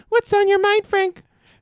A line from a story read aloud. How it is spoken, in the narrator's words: She asked gaily